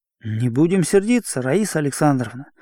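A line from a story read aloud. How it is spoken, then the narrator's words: Gentle, persuasive request. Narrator (Russian): убедительно и мягко попросил Ромашов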